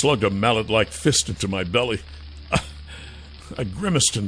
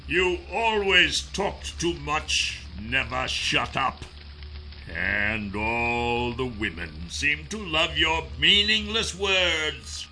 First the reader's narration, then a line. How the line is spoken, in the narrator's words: said, through clenched teeth